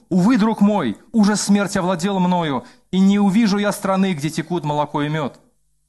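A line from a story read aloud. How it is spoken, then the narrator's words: Firm exclamation. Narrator (Russian): твердо, но христианин воскликнул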